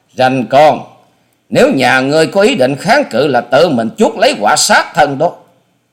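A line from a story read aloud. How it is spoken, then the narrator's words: Loud shout. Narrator (Vietnamese): Hà Xà Tiên Tử hét to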